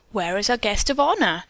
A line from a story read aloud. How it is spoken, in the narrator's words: the amazed hostess exclaimed